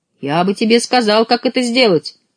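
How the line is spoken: Tiny boy shouting. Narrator (Russian): крикнул мальчик с пальчик

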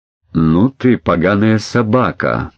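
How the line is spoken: Through gritted teeth. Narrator (Russian): процедил сквозь зубы Эдмунд

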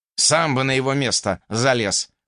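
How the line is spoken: Smirking snort. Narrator (Russian): хмыкнул Джеллу

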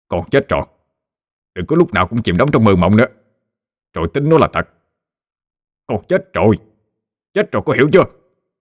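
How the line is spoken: Annoyed loud shout. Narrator (Vietnamese): Ông bực mình quát lớn

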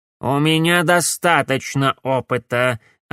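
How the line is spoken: Plain. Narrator (Russian): ответил ей Корнелиус

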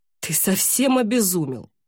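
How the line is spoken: Breathed out. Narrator (Russian): выдохнул Винде

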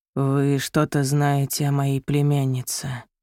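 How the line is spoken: Man mumbling. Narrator (Russian): бормотал мужчина

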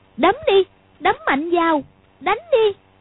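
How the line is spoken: Involuntary stung cry. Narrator (Vietnamese): hơi sợ, nhưng sờ lên mặt thấy nóng rát vì cái tát vừa nãy thì bất giác kêu lên

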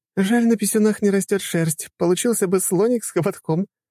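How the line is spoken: Giggling. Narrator (Russian): хихикала Лиза

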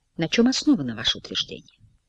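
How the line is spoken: Greedy, very quiet question. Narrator (Russian): как-то алчно, очень тихо спрашивает у него

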